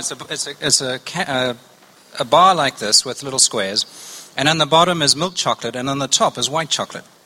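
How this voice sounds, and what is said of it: Slight South African accent. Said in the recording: “you get it in South Africa, of course, which you can tell from a little bit of an accent.”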